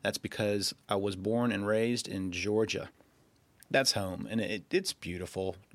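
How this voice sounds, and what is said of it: Slight Southern US accent. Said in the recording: “you can probably detect a little bit of a southern accent.”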